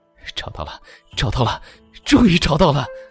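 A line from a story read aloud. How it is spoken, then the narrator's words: Trembling excited muttering. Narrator (Chinese): 声音颤抖，激动地自言自语道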